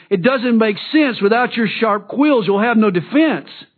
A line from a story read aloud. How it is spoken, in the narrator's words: Bill exclaimed